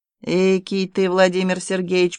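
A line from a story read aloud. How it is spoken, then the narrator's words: Grumbling. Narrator (Russian): проворчал Балабуха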